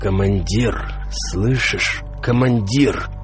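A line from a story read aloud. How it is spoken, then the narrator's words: Hoarse wheeze. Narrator (Russian): просипел я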